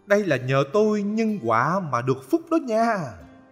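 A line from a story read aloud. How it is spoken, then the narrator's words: Cheerful, delighted. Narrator (Vietnamese): khi nghe mọi người tán dương mình, mặt ông tươi lên, hớn hở bảo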